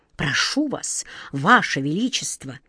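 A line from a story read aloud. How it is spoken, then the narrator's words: Respectful whisper. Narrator (Russian): Главный сборщик улыбок добавил шепотом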